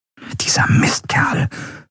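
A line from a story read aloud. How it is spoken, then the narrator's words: Whispered. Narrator (German): flüsterte Endriel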